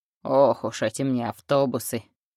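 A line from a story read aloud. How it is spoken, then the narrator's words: Grumble. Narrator (Russian): проворчал он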